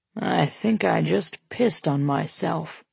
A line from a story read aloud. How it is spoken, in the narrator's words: he mutters